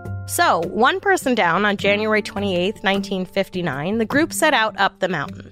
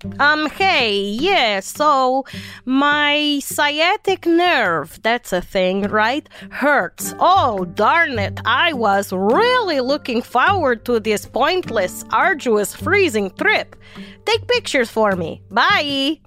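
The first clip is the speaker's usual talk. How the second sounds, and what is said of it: Put-on Russian accent. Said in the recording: “That was my Russian impression.”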